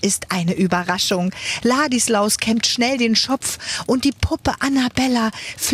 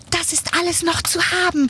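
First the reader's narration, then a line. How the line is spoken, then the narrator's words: Call. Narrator (German): ruft die Puppe Annabella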